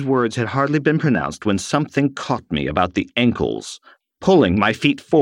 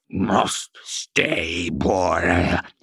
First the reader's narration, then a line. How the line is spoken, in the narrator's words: croaked through blubbering lips, now thick with blue spittle